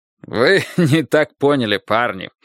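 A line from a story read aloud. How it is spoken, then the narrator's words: Hearty laughter. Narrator (Russian): от души рассмеялся Мейсон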